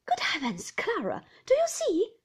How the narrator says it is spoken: exclaimed Miss Murdstone

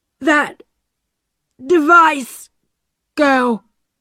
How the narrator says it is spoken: John Law said slowly

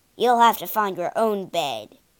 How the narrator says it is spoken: he growled

